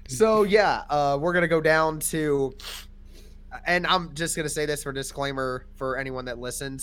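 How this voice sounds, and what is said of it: Sniffly voice with a cold. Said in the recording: “I have a cold, so if I'm sniffling a little bit or if I'm coughing”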